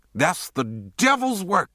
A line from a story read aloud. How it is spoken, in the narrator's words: she shouted